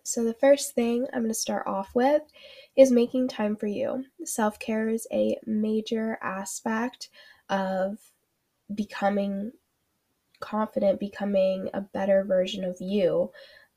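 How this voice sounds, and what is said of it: Nasal, congested voice from a cold. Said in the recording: “my voice sounds a little off today. I do have a cold, so I might be a little like nasally.”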